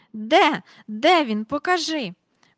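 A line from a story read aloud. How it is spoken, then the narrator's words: Breathless exclamation. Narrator (Ukrainian): вигукнула міс Жайворон, ледве зводячи подих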